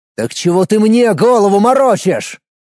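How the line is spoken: Furious yelling. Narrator (Russian): заорал Никитин, которого вывела из себя вся эта нелепая ситуация

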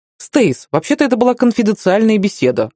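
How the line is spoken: Snapped retort. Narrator (Russian): огрызнулся Кевин

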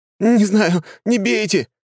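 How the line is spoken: Shrill squeal. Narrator (Russian): завизжал тот

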